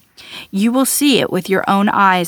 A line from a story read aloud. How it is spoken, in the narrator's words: answered Elisha